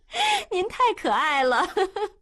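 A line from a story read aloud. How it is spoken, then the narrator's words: Giggling. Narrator (Chinese): 月月咯咯地笑了起来，说道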